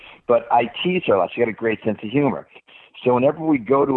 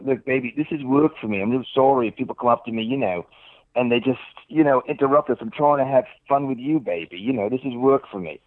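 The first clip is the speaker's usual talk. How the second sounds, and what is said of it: Fake English accent. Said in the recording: “I put on a fake English accent.”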